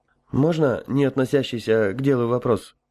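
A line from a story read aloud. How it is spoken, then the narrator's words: Somewhat hesitant question. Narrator (Russian): несколько неуверенно спросил Михаил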